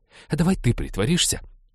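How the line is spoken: Sharp interruption. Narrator (Russian): резко перебила она Натана

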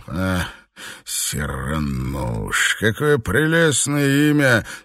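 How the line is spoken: Husky purr. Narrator (Russian): с хрипотцой промурлыкал Горнт вслух

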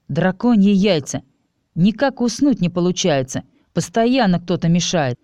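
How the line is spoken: Menacing growl. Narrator (Russian): зловеще прорычал вампир

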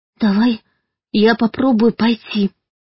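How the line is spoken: Trembling offer. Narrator (Russian): дрожащим голосом предложила Юлька

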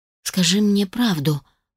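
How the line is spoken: Hoarse, coughing, pained. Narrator (Russian): прохрипела я и раскашлялась от боли в пересохшем горле

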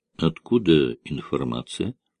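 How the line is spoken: Quiet question. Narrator (Russian): тихо спросил Данготар

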